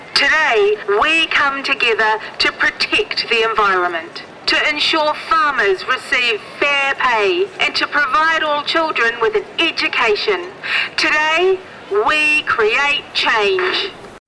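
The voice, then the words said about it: New Zealand accent. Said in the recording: “I am a Kiwi who couldn't speak properly as a kid... that is just my accent.”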